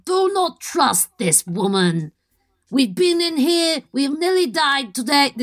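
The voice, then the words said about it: Gruff orc character voice. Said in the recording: “This is orc. How orcs speak in my head. ... Orc accent.”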